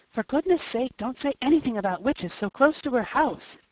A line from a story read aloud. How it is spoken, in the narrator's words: gasped Felicity